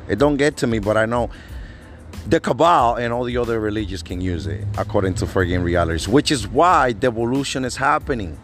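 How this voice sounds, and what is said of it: Non-native English accent. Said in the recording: “I have an accent... English is my second language... I have an accent.”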